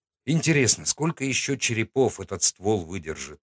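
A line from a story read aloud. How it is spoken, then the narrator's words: Sighing mutter. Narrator (Russian): пробормотал я себе под нос, вздохнув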